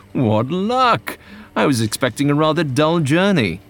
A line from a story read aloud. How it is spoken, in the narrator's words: He exclaimed